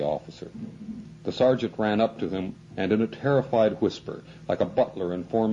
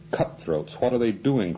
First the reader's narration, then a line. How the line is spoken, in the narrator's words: cried the officer